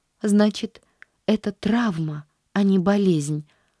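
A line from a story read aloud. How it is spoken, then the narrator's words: Sighing. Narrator (Russian): вздохнула она наконец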